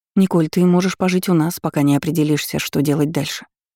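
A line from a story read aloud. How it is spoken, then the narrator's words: Plain. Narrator (Russian): сказала Инга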